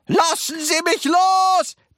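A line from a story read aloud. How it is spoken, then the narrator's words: Bellowing. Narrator (German): brüllte Mr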